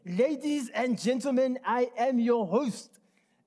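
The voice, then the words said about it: Put-on German accent. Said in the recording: “I'm going to try my best German accent. ... world-class German right there”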